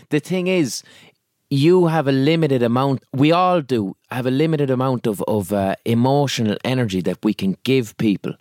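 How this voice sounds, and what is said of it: Irish accent. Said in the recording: “My Irish accent sounds like I'm calling you Usher”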